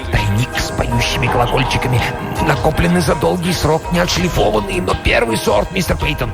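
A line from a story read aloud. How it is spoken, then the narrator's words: Whispering. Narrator (Russian): Корнуэлл шептал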